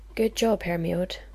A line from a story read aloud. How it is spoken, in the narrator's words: she muttered to herself